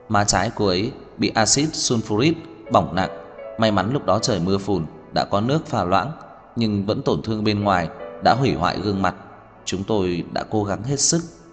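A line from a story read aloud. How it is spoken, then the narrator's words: Sighing regretful doctor. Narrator (Vietnamese): Vị bác sĩ khẽ thở dài mất mát nói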